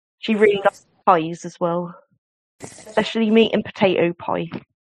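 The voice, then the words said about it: Very strong accent, very fast speech. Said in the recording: “she talks like this. She's got a very strong accent. She talks very fast.”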